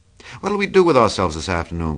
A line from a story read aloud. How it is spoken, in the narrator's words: cried Daisy